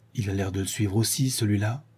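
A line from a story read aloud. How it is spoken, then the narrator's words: Low voice. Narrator (French): Sholmes dit à voix basse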